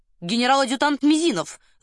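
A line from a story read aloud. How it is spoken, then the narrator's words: Loud booming announcement. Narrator (Russian): зычно объявил он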